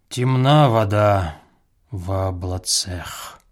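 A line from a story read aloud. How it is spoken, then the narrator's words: Sighing official. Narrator (Russian): Штатный смотритель уездных училищ вздохнул и сказал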